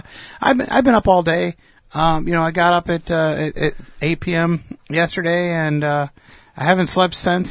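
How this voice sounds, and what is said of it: Slightly hoarse voice. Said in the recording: “my voice is a little hoarse because I've been talking a lot”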